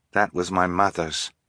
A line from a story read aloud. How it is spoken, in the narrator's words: Fiona said quietly